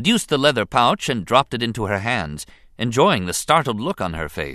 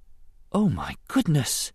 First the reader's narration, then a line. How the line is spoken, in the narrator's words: she breathed softly